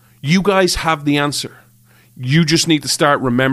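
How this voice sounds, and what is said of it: Usual voice. Nothing is said of it.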